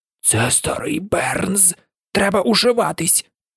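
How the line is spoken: Barely audible whisper. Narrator (Ukrainian): Сем ледве чутно прошепотів

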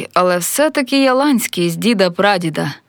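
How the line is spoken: Displeased grumble. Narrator (Ukrainian): невдоволено буркнув

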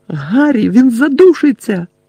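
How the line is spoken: Urgent shout, injured girl. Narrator (Ukrainian): крикнула, яка не могла встати через перелом ноги

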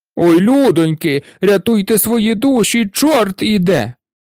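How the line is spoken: Shouting in unison. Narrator (Ukrainian): Закричали вони в один голос

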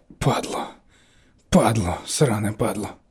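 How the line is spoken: Whisper. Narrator (Ukrainian): прошепотіла

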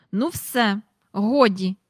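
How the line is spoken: Said angrily. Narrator (Ukrainian): сказала Мері Поппінс, сердито поглянувши на Джейн

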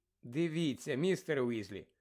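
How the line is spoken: Gentle. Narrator (Ukrainian): лагідно промовила Герміона

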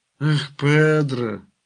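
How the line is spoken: Sighed. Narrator (Ukrainian): зітхнув Крутовітер

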